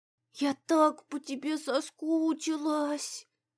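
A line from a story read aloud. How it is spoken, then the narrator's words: Murmuring. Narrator (Russian): пробормотала она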